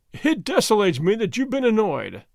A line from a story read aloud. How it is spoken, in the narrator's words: the governor said, laughing